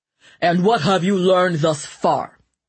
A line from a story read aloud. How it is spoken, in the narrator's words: the king demanded hotly, his cheeks flushed, his nostrils white with anger